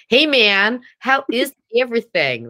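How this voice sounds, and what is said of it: Unconvincing put-on American accent. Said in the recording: “I try American ... It's like it's a new American Scottish dialect.”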